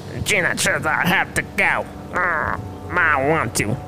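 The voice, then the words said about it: Creepy low growling demon voice. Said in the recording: “The low growl ... that creepy voice”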